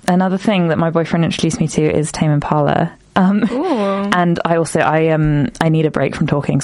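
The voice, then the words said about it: Unusually deep voice. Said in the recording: “I'm very hay fevery. I'm talking really deep. You notice my voice is really deep today.”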